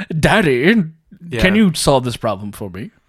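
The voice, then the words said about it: Imitates another person's voice. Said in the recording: “my Armie Hammer impression... it sounds exactly like him”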